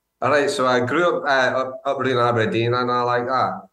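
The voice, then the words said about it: Heavy Scottish accent. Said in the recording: “Is that you putting on a more heavy Scottish accent?”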